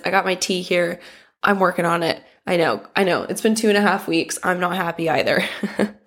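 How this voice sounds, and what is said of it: Sick, funky-sounding voice. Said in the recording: “I'm still sick from New Year's, so I'm sorry if my voice is funky, if I'm making weird noises.”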